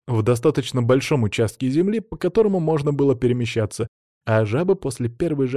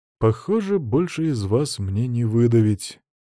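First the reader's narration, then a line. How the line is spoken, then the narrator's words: Disappointed sigh. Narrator (Russian): разочарованно вздохнул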